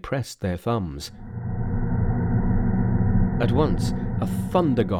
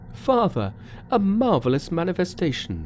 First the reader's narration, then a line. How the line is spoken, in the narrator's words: they cried